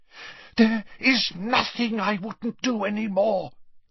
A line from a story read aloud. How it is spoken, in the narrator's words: Narcissa breathed, a note of hysteria in her voice